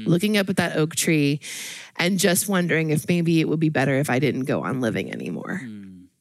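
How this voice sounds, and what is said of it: Emotional, slightly shaky voice. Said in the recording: “getting emotional about this ... here I am getting a little emotional”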